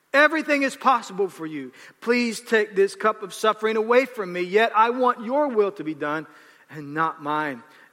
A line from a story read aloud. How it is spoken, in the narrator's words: he cried out